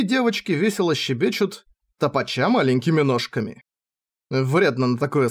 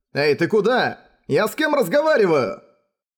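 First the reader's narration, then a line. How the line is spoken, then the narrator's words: Shouted. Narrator (Russian): я закричал уже после того, как Матаяса уехал обратно по той же дороге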